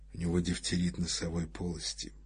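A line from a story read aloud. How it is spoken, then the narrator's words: Low, hushed voice. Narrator (Russian): сказал он вполголоса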